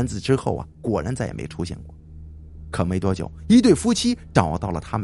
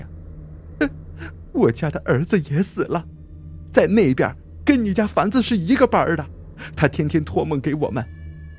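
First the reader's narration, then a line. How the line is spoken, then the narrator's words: Wife suddenly crying. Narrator (Chinese): 妻子突然哭起来说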